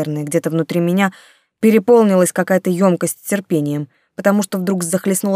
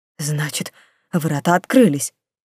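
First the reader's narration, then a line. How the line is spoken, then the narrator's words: Dazed mutter. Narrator (Russian): пробормотал стукнутый чистильщик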